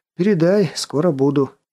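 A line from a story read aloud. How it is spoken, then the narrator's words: Heavy sigh. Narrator (Russian): ответил Воронцов, тяжело вздохнув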